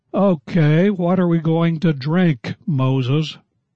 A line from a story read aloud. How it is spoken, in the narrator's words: the people grumbled at Moses, saying